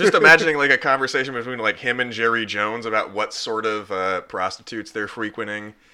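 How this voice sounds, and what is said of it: Usual voice. Nothing is said of it.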